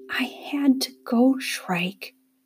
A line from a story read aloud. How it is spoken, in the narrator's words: she whispered